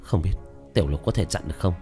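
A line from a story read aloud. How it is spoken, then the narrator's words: Trembling inner mutter. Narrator (Vietnamese): Trong lòng của tiểu thất run lên lẩm bẩm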